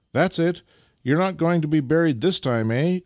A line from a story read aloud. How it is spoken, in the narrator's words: cried Nikita encouragingly